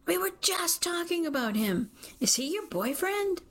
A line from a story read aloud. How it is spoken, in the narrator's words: She follows my gaze and practically screams